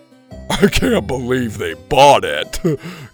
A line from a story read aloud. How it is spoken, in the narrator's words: Gabe laughed